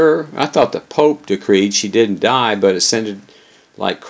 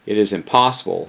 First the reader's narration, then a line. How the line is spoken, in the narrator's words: he answered flatly